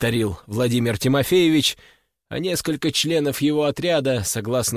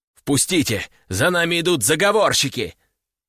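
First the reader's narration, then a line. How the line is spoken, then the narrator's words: Shouting, feigned panic. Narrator (Russian): прокричал Владимир Тимофеевич, изображая панику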